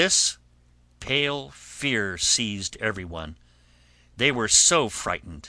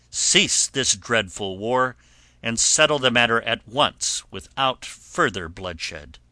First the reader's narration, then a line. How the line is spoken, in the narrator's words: she cried